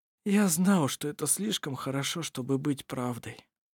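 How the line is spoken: Dejected sigh. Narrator (Russian): удрученно вздохнул Ировар

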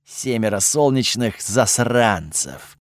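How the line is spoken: Resigned sigh. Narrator (Russian): обреченно вздохнул Готфрид

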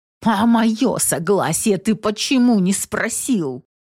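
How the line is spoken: Hissed through teeth. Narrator (Russian): Прошипела сквозь зубы Белинда

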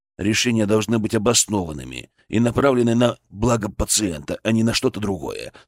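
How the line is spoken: Calm retort. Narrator (Russian): спокойно парировал

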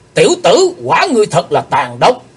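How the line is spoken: Shout. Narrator (Vietnamese): Theo tiếng quát

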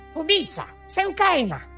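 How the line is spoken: Squealing. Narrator (Russian): запищал Вурл

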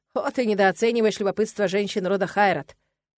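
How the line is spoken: Snorting, wry. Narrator (Russian): хмыкнул Нолан

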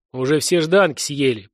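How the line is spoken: Deep bass reply. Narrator (Russian): пробасил в ответ геолог

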